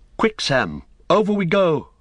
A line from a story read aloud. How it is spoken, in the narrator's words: cried Frodo